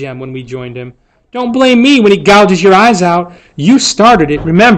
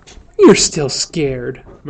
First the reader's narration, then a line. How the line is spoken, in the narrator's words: murmured Dill patiently